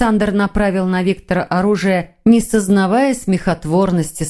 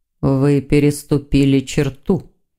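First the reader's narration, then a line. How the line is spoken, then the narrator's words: Quiet demon voice. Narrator (Russian): тихо проговорил демон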